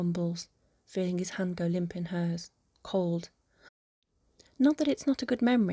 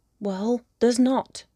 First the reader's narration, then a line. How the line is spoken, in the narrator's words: he snaps